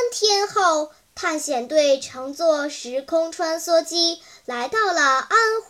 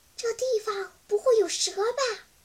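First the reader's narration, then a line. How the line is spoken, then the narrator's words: Quiet nervous mutter. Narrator (Chinese): 妞妞 小声嘀咕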